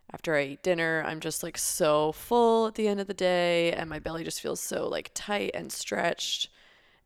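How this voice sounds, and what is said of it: Nasal, congested voice with sniffling. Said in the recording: “I sound a little nasally. ... I currently have a cold, so if you hear me sniffling”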